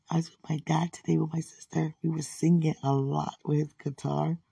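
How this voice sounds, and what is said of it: Hoarse, deep voice. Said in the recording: “my voice is hoarse... My voice, please excuse. It's already deep. Now I'm hoarse. It's deeper”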